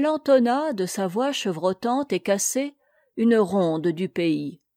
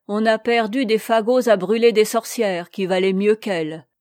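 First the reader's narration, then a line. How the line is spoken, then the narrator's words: Angry grumble. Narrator (French): grommela Dame Marthe avec colère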